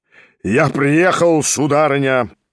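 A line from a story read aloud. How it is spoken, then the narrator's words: Booming trumpet-like voice. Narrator (Russian): прогремел было он, как в трубу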